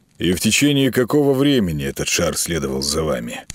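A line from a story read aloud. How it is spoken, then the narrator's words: Tired question. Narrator (Russian): устало спросил полковник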